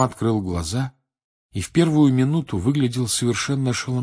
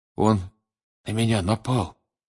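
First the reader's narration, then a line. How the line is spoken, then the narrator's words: Weak voice. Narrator (Russian): слабым голосом проговорил Крам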